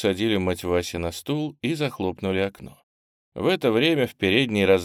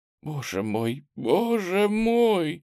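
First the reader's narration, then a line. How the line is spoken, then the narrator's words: Helpless moan. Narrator (Russian): бессильно застонала Надежда Ивановна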